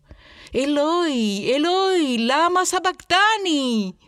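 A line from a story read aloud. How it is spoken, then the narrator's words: Shouting at the top of voice. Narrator (Spanish): Jesús gritó a voz en cuello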